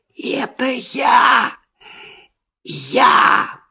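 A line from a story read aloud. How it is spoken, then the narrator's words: Muffled trembling whisper. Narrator (Russian): послышался из-под дивана дрожащий шепот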